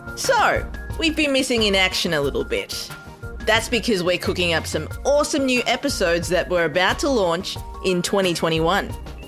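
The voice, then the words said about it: Australian accent. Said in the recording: “this adorable Australian accent”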